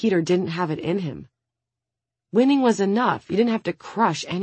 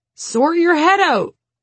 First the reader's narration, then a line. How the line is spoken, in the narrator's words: the coach yelled